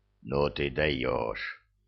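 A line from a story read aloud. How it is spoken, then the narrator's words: Grumbled. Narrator (Russian): проворчал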